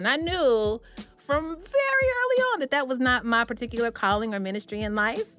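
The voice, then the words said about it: Southern US accent. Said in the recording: “I'm from the South ... they would hear my accent”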